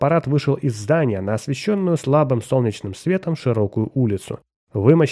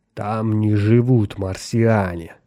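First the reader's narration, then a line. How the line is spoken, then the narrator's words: Slow hiss. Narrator (Russian): медленно прошипел он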